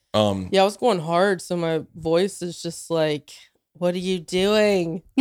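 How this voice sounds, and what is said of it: Raspy, hoarse voice. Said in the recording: “It's all raspy sexy. ... It's raspy right now. ... my sexy voice”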